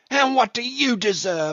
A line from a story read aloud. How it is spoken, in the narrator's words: I shouted at him